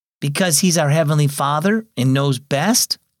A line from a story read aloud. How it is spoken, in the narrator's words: Lyle asked